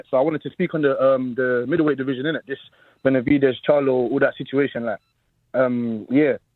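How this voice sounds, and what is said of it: South London accent. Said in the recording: “I'm calling from South London, innit? ... I definitely hear the accent.”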